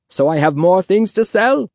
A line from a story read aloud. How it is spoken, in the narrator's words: He laughed